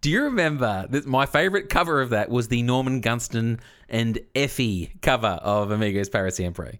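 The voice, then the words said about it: Husky, slightly sick-sounding voice. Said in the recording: “I've come off my sick bed, so my voice is a little husky.”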